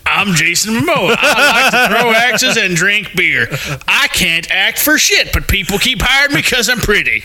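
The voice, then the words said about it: Impression in a Southern accent. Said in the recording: “I can do a Jason Momoa impression. ... That's not how he sounds. I'm pretty sure he's not Southern.”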